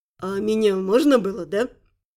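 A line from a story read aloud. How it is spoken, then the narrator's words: Quiet laugh. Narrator (Russian): Тихо рассмеялась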